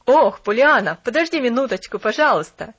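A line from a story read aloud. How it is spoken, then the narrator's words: Shouting visitor. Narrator (Russian): крикнул посетитель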